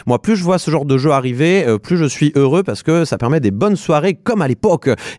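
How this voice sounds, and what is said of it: Noticeable regional accent. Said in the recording (French): “Ah, tu reprends ton accent. ... Ah oui, l'accent. ... Ça rejaillit régulièrement”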